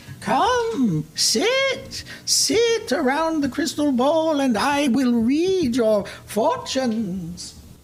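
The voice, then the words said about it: Old witch character voice. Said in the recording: “do the character voice ... I will always do my character voice”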